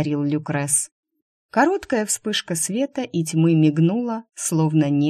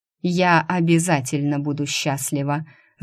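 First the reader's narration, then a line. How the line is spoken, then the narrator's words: Spiteful. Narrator (Russian): зло скривила губы Шу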